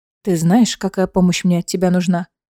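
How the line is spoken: Quiet question. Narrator (Russian): негромко спросила Айлина

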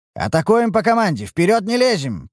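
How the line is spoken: Sharp command. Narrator (Russian): прикрикнул я

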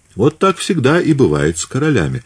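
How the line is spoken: Laughing. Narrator (Russian): засмеялся Бочарелли

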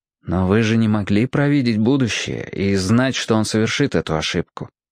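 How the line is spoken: Gentle. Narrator (Russian): мягко сказал Роб

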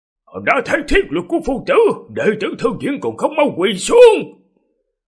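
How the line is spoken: Loud command. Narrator (Vietnamese): Lão Tế Tiểu lớn tiếng quát

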